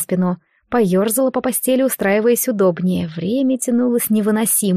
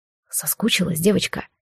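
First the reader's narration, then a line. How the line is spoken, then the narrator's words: Whisper, hated voice. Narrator (Russian): шепнул ненавистный голос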